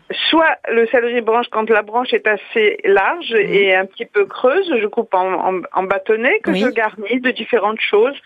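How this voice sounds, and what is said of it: Strong Italian Sicilian accent. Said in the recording (French): “Quel accent, mais quel accent ... Vous êtes italienne? ... D'origine italienne, sicilienne.”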